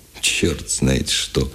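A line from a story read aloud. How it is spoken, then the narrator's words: Softened voice, aloud. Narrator (Russian): вслух размягченным голосом произнес он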